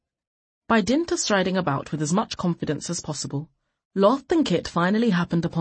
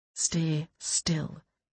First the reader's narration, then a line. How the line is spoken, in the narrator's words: Kit whispered